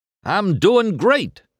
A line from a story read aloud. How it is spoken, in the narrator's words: Harv exclaimed